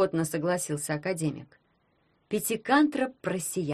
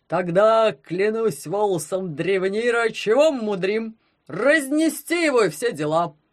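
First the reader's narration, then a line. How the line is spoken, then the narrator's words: Booming rumble. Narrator (Russian): Прогудел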